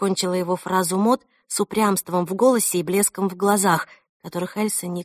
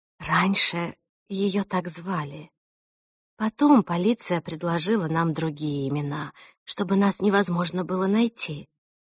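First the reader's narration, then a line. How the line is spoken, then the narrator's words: Explaining. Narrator (Russian): объяснила Мот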